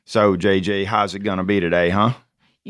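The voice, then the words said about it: Rough put-on Southern accent. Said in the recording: “we'll get into Southern accent modality ... You started out sort of rough with that Southern accent ... Wasn't among my best ... my normal non-Southern accent”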